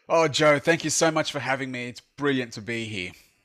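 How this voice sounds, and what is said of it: Australian accent. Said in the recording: “he's in Sydney, Australia, if you recognize that accent. It is not from Alabama like me.”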